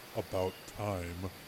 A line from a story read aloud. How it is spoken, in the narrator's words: he muttered